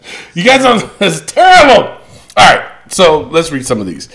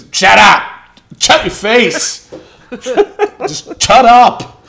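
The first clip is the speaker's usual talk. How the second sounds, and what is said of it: Imitates another person's voice. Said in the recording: “that's a bad Pedro Morales impression”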